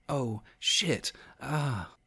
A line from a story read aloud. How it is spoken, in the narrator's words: Jess gasped quietly, her body trembling